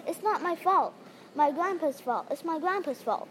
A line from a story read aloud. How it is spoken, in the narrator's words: Ronaldo said firmly